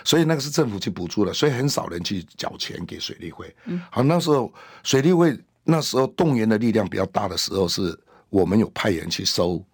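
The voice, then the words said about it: Hakka-accented Mandarin. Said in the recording (Chinese): “口音好可爱 ... 客家口音，哎，那几乎我们客家的那个口音”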